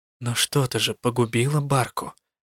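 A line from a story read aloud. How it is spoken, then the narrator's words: Quiet reminder. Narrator (Russian): тихо напомнила я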